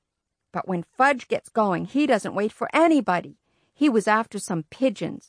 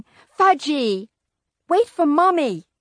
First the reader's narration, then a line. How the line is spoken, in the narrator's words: My mother hollering